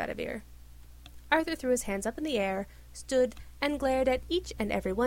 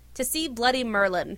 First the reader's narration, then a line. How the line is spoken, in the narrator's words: Arthur shouted